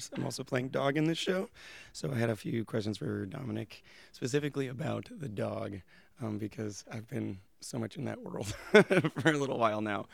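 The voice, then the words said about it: Hoarse voice. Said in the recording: “sounding different because I'm hoarse.”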